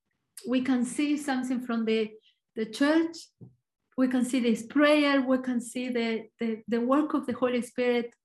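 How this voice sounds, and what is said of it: Argentinian-accented English. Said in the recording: “I'm Argentinian, so my accent is probably a little bit different”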